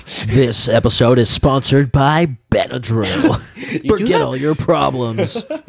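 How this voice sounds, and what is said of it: Announcer-style commercial voice. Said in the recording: “You do have a good announcer voice.”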